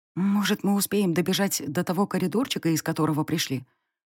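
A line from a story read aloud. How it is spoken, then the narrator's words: Hopeful whisper. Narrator (Russian): прошептала в надежде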